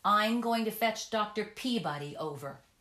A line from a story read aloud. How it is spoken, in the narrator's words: Olive shouted out impatiently at the window